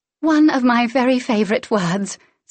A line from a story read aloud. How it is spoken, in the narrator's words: Celine sighed